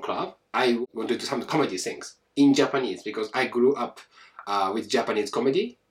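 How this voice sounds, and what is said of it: Japanese-accented English. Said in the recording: “still I have this fucking accent ... I'm Japanese”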